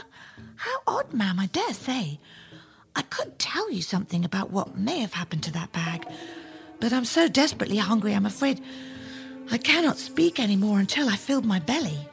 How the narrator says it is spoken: Jack smiled sweetly and replied

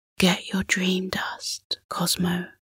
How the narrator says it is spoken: Orion whispered

